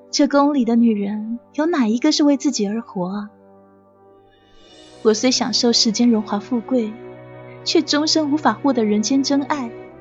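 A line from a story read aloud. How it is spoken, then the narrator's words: Sighing. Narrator (Chinese): 红菱不由得一叹道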